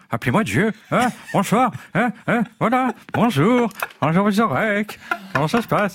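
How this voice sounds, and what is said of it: Imitates a politician's voice. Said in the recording (French): “C'est vraiment Mitterrand imité par Rocasse en 82”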